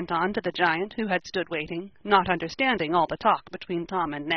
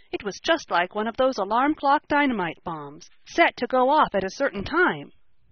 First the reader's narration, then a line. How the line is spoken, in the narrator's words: cried Ned